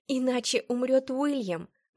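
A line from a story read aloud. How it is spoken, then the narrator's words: Exclaimed. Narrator (Russian): воскликнула я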